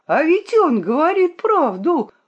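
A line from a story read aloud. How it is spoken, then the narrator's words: Exclaiming. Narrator (Russian): воскликнул Пробка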